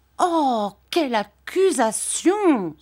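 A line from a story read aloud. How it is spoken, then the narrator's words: Exclaimed. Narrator (French): s'écria Dora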